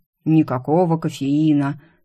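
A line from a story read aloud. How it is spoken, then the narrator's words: Grumbling mimicry. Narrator (Russian): заворчала я, передразнив голос Кронина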